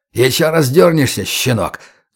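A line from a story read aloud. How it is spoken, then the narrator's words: Vicious hiss. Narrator (Russian): злобно прошипел охранник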